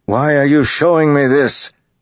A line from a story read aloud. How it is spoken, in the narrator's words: Dalinar bellowed into the night